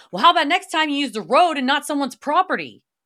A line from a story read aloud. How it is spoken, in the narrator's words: I yelled